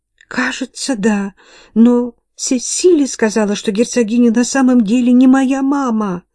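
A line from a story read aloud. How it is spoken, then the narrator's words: Sobbing. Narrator (Russian): рыдая проговорила Кейт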